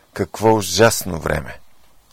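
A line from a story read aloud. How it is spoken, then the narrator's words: Exclaiming. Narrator (Bulgarian): портиерът възкликна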